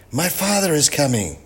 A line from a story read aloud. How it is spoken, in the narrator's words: gasped Kim Shi